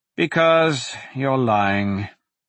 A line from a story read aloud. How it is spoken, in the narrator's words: Larimore sighed